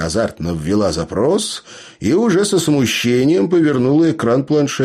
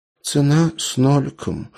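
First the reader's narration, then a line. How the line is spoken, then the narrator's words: Sighing. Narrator (Russian): вздохнула Тася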